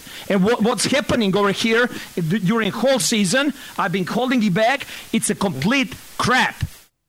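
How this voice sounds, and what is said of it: Russian accent, ranting. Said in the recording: “I love a rant in a Russian accent. ... He could be a villain in a Bond movie.”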